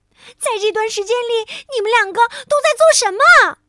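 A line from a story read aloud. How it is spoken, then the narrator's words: Exasperated loud shout. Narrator (Chinese): 圣诞小姐看到一大堆的礼物还没有包装，她大声的喊起来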